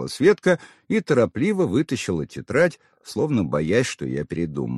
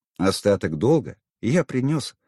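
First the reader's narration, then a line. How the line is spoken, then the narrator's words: Calm placating reply. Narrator (Russian): спокойно ответил я, чтобы не раздувать конфликт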